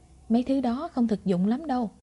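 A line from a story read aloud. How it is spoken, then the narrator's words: Smiling. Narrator (Vietnamese): Lục Ly mỉm cười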